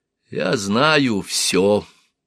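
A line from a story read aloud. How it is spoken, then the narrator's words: Quiet menacing purr. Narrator (Russian): негромко произнес он голосом, напоминающим кошачье мурлыканье, от которого слуги обычно разбегались в страхе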